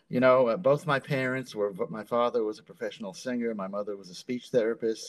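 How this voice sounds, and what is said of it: New York accent. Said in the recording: “I did not have a New York accent.”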